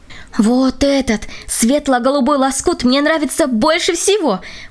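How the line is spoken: Exclaimed. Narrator (Russian): воскликнула Катя

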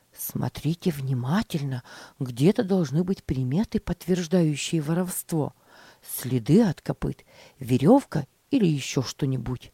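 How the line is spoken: Whisper. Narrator (Russian): шептал мальчикам Джон

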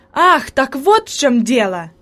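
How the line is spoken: Exclamation of sudden realization. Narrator (Russian): воскликнул Себастьян, понимая причину появления привидения

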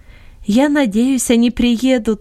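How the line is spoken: Joyful. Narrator (Russian): радостно сказала Долорес

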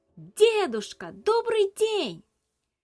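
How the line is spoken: Shouting as loud as possible. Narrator (Russian): Набрав воздуха в легкие и собравшись силой, Илья крикнул так громко, как только мог

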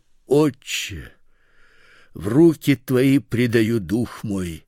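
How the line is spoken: Loud cry. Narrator (Russian): Иисус, возгласив громким голосом, сказал

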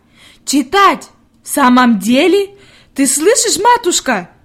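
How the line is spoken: Shout. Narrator (Russian): крикнула она

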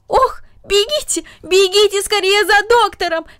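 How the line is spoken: Aunt shouting. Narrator (Russian): закричала тетя

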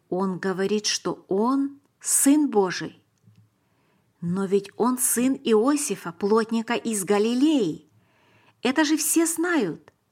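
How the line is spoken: Plain. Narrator (Russian): сказал Давид

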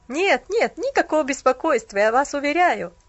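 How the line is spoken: Awkward laughing young man. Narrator (Russian): засмеялся молодой человек, стараясь скрыть неловкость

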